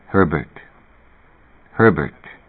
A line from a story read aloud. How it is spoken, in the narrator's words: a voice said softly to him